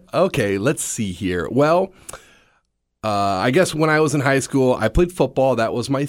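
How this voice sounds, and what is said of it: Slightly scratchy voice. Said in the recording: “my voice is kind of scratchy and long day at the office of yelling at my students ... forgive me if my voice is a little scratchy”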